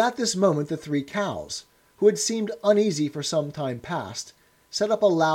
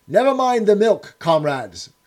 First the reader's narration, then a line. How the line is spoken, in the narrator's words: cried Napoleon